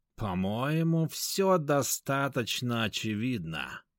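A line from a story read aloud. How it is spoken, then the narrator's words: Drawling. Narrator (Russian): протянул Ягуар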